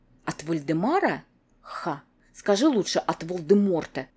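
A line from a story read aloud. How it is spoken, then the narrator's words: Very quiet, desperate. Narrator (Russian): Совсем уже тихо и отчаянно произносит Анжела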